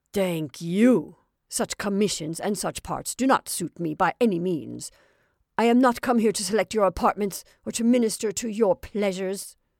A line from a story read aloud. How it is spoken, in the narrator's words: Paul growled